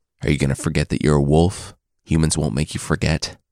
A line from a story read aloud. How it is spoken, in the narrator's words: Gray Brother asked